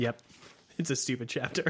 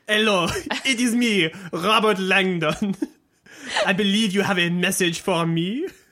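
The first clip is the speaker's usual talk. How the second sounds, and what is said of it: Bad put-on French accent. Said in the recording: “it's my French accent's crossing over ... that accent's crossing over with my French accent ... It's very I have, bad.”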